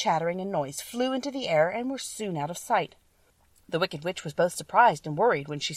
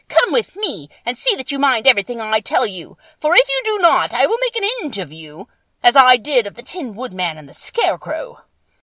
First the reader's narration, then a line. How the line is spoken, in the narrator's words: she said to Dorothy harshly and severely